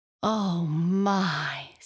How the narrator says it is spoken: sighed Jessie

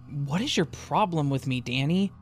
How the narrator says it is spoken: said angrily

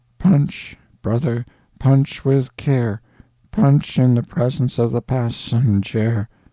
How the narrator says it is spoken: drew a deep sigh, and said, without animation, without apparent consciousness

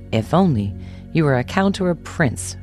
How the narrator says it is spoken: she sighed

